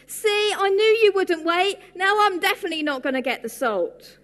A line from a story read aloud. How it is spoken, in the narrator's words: the baby tortoise suddenly jumped out from behind a tree, shouting